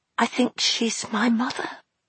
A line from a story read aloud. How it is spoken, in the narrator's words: she whispered